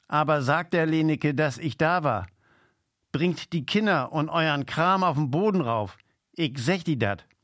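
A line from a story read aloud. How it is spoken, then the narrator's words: Calling out. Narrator (German): rief sie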